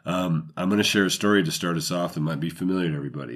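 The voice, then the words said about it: Deeper, slightly sick-sounding voice. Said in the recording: “if my voice sounds a little different, it's because I haven't felt 100% the last 2 days ... When my voice gets a little deeper from... From feeling sick”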